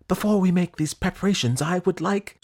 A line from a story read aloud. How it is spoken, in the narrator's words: exclaimed the prince